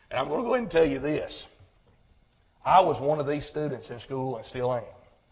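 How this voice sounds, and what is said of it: Rural country accent. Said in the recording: “I'm an old country boy. You've heard my accent”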